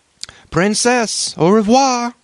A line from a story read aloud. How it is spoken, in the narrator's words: cried he, stumbling with his tongue